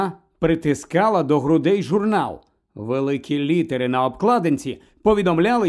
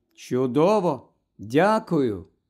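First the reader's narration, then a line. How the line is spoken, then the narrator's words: Plain. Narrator (Ukrainian): відповіла Луна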